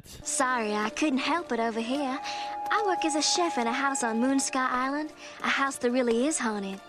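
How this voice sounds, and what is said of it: Sexy New Orleans accent. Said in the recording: “The sexy New Orleans accent.”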